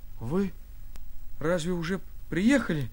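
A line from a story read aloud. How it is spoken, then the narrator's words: Slurred, confused mumble. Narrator (Russian): Заплетающимся языком глупо выдавил я из себя, не понимая еще, о чем это он говорит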